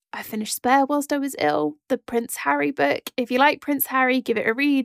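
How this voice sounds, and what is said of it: Croaky voice. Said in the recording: “My voice is still quite croaky.”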